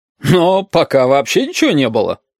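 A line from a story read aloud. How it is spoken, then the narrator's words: Chuckle. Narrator (Russian): хохотнул красный шар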